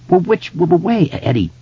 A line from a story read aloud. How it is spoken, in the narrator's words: he asked urgently